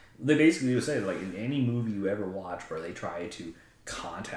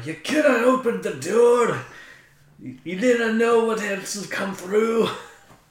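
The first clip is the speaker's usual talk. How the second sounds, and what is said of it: Bad put-on Scottish accent. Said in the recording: “my really bad Scottish accent”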